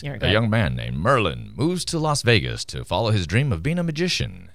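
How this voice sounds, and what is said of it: Radio announcer voice. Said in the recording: “let me use my radio announcer voice.”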